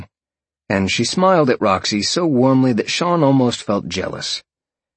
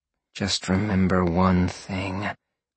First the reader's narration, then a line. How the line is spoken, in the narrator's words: Roxy growled in his ear softly